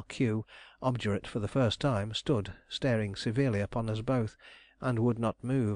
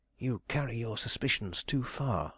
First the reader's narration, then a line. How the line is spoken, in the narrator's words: I whispered